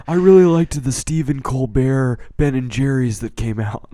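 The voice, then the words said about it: Imitates another person's voice. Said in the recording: “That was an all right impression... he's Keanu... I'm doing an impression of Keanu Reeves.”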